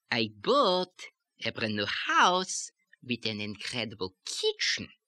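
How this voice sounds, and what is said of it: Exaggerated Yiddish accent lilt. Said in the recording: “we're going a little bit too far with that ... the characteristic lilt of the Yiddish accent”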